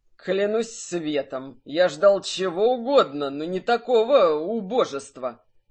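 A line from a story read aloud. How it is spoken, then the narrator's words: Through teeth, hostile laugh. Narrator (Russian): Процедил Ханг и неприязненно рассмеялся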